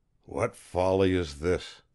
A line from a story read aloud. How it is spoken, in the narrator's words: he muttered